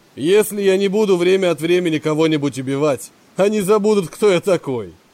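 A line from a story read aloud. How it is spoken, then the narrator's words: Sinister laughter. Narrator (Russian): Зловеще расхохотался он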